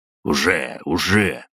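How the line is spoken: Tense grumble. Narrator (Russian): проворчал Игорь напряженно

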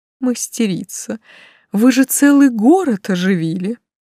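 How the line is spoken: Laughing. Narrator (Russian): Сквозь смех напомнил эльф

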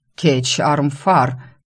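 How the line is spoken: Hot-tempered growl. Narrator (Russian): рыкнул вспыльчивый хозяин обители Цикорт

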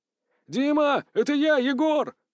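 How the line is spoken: Shouting. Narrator (Russian): закричал Силантьев

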